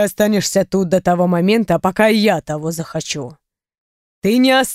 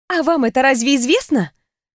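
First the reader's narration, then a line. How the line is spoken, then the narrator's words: Snorted. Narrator (Russian): фыркнула я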